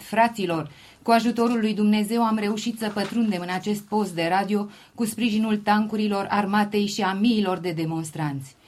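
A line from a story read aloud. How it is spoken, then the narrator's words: Stranger exclaiming over radio. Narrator (Romanian): Tot la radio București, o persoană neidentificată a exclamat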